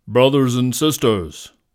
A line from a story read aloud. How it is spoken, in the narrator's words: the lion's voice boomed